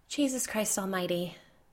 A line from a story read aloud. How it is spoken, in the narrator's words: Kate breathed